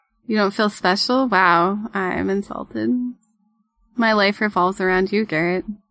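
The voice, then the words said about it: Sarcastic delivery. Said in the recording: “Stop being sarcastic.”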